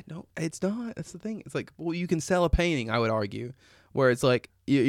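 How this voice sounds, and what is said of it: Usual voice. Nothing is said of it.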